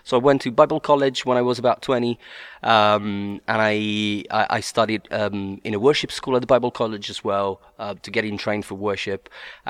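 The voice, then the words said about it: Strong Sicilian Italian accent. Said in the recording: “you've got a very distinctive and appealing accent ... I'm Italian. More specifically, I'm from Sicily ... my strong accent”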